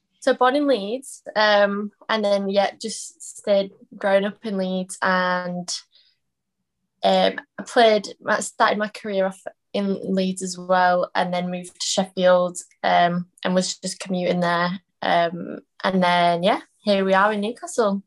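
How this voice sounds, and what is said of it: Slight Yorkshire accent. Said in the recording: “I detect a slight accent from you, mind us, just a slight... Yorkshire twang”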